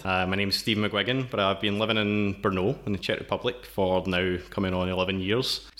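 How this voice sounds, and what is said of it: Scottish accent. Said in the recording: “From the accent, you can tell I'm originally from Scotland.”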